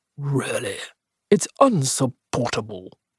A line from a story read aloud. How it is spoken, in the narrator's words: Cresswell, who flushed and murmured below her breath